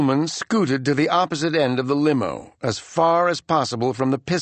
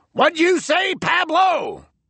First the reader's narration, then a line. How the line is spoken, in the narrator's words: Blister yelled